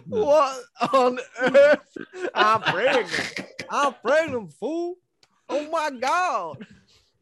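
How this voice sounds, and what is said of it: Put-on Texan accent. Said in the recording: “she's from Texas ... Good accent.”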